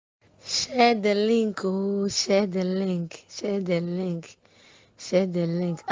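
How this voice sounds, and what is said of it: Hoarse, nearly lost voice. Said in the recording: “As you can see, my voice. I've even lost my voice.”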